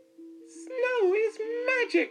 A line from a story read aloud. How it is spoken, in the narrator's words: cried Little Mouse